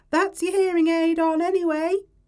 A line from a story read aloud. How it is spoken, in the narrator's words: she shouts